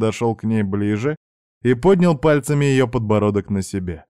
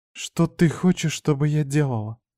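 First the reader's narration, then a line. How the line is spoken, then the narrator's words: Quiet submissive question. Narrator (Russian): тихо спросила она, понимая, что в моей полной власти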